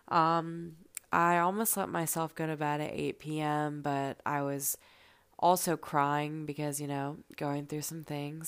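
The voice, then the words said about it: Tired-sounding voice. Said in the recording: “I sound tired.”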